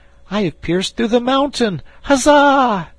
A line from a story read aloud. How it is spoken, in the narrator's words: at the shout